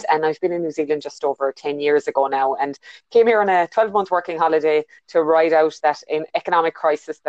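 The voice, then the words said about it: Irish accent. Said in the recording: “you can hear by my accent, I'm not originally a New Zealander. I was born in Ireland”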